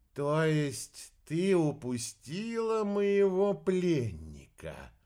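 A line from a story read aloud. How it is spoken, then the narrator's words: Slow repetition. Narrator (Russian): медленно повторил орбидолочек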